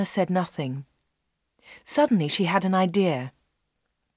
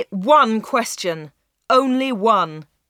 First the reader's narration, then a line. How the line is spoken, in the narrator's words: shouted Dave